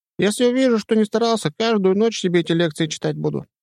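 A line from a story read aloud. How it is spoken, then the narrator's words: Squeaky voice. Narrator (Russian): пропищал он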